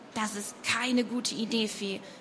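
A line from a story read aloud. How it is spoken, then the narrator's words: Plain. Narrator (German): sagte Nova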